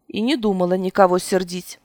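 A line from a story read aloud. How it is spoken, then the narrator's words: Muttered. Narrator (Russian): буркнула я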